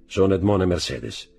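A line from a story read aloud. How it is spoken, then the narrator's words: Dull muffled voice. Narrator (Italian): rispose con voce sorda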